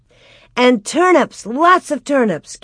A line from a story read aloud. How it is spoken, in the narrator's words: Carrie cried